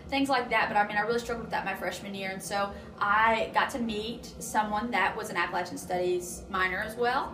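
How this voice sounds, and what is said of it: Eastern Kentucky Appalachian accent. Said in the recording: “you can tell from my accent where I'm from ... you sound like cornbread ... being from eastern Kentucky”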